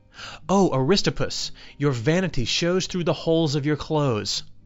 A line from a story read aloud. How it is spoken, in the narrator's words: he exclaimed